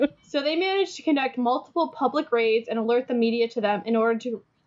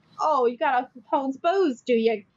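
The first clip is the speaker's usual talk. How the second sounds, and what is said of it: Poorly done put-on accent. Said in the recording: “I'm not good at twins accents”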